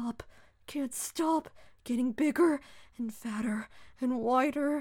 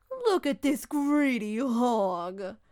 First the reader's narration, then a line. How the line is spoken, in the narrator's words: laughed one young woman